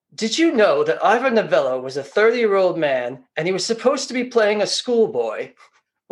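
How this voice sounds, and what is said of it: Poor Alfred Hitchcock impression. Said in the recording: “that's a horrible Hitchcock impersonation.”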